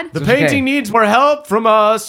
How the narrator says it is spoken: Uncle Andrew shouts

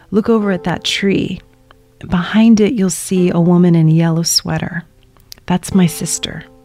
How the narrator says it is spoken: my dad leans over and whispers to me

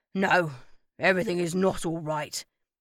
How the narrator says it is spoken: grumbled loudly

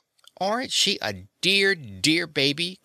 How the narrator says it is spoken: cried Marthy

